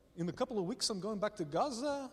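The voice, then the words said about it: Put-on Dutch accent. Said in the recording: “he's Dutch. That was my Dutch accent.”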